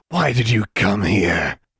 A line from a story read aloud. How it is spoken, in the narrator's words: He rasped